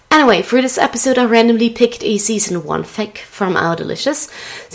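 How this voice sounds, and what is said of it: Raspy voice from a cold. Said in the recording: “my voice is a little strange and raspy, but I have a cold”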